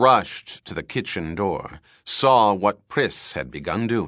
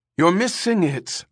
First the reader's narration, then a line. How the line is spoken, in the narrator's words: Ermgard called anxiously to Priss